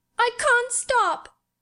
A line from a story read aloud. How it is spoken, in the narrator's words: gasped and sobbed